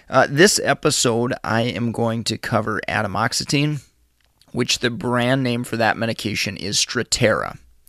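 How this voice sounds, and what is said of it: Slightly congested, odd voice. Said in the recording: “my voice is a little quirky today, as I've had a little bit of a head cold”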